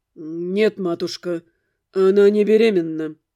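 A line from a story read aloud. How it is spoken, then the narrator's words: Answer through clenched teeth. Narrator (Russian): ответил он за меня сквозь зубы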